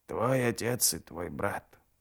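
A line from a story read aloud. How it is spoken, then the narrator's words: Hoarse rasp. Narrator (Russian): прохрипела мать Гандринг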